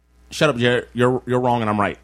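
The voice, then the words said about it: Imitates another person's voice. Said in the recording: “This is my Jared Hill impression. ... Oh, it's very NeNe Leakes.”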